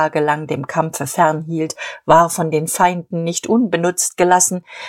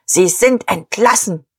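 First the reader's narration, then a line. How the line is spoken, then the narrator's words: Barked. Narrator (German): bellte Dietrich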